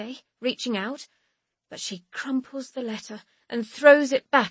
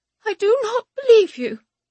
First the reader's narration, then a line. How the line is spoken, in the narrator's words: she says, her voice wobbling